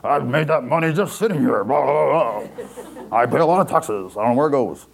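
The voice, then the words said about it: Put-on rich man's voice. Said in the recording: “That was my impression of like a rich man.”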